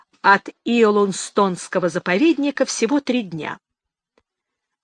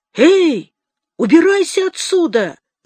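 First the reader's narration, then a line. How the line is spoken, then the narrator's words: Shouting. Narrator (Russian): закричал на него Лео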